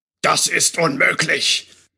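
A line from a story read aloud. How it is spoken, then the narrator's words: Thundering loud male voice. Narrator (German): donnerte wieder die laute Männerstimme, die wohl dem obersten Wichtigtuer der Drachengilde gehörte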